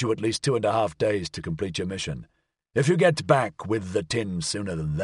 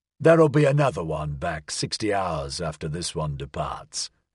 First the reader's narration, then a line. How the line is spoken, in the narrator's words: Aveling said, his voice unctuous with sarcastic sweetness